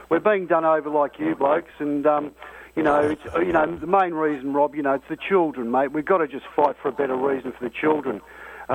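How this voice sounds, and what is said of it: Australian accent. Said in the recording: “I've got this sort of Australian accent”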